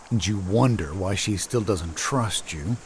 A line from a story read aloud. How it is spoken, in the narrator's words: Bill murmurs